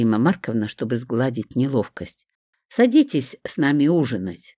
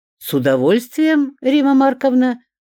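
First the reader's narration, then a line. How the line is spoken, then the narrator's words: Suddenly very cheerful. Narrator (Russian): вдруг крайне весело произнес Будяк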